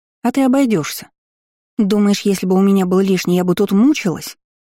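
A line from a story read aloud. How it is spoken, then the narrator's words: Snapped. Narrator (Russian): Огрызнулась Иза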